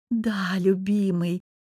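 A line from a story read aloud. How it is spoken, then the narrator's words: Languid drawl. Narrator (Russian): томно протянула девица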